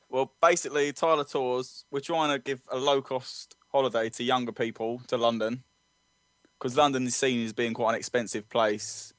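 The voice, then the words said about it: British accent. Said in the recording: “we love your accent ... It was quite wonderful to hear ... British accents are highly valued”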